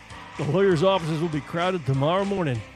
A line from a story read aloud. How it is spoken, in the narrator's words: McIlwain, chief of detectives, mutter in Colonel Stilton's ear